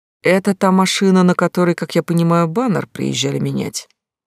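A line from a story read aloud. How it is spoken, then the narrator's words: Sighing question. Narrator (Russian): Юрий Арсеньевич вздохнул и спросил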